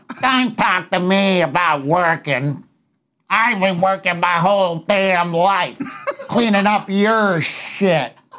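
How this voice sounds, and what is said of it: Imitates another person's voice. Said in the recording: “I love your Roseanne impression. That's my favorite impression”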